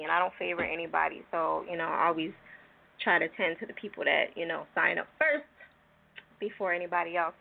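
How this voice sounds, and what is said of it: Hoarse, strained voice. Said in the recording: “I'm in the process of, like, almost losing my voice.”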